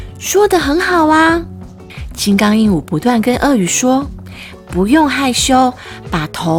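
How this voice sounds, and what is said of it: Usual voice. Nothing is said of it.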